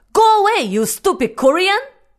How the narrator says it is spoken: he glared and shoved my hand away and yelled

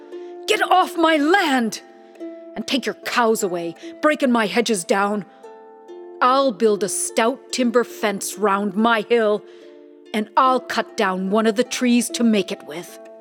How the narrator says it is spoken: He was afraid to go up there, so he yelled out

